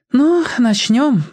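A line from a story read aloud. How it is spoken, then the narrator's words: Sighing. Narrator (Russian): вздохнула Флора Вениаминовна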